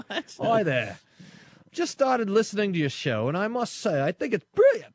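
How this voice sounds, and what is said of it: Put-on Australian accent. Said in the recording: “I got to use an Australian accent.”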